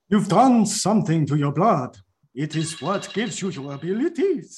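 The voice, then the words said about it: Dramatic Count-like vampire character voice. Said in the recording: “What is that voice? ... Morbius is just the Count now”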